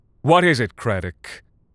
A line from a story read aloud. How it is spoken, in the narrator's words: Colton snapped